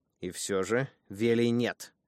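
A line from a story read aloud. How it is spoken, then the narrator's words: Stern command. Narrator (Russian): сказала строго, словно давала команду собаке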